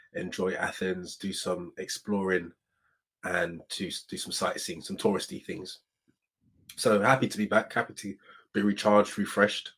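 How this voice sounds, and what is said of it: Voice with a slight cold. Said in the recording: “as you can probably tell by my voice, I've got a slight cold.”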